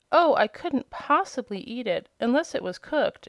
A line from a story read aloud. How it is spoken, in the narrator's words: exclaimed Dorothy